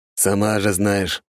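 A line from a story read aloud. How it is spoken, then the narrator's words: Grumble. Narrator (Russian): проворчал ее коллега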